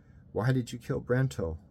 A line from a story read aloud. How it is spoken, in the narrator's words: Bernie asked, his voice thick with tears